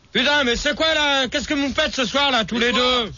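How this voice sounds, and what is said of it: Shouting angrily. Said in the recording (French): “tu cries ... tu cries”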